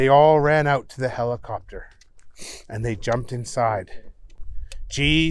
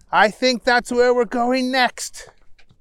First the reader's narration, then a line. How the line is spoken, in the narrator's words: Henry shouted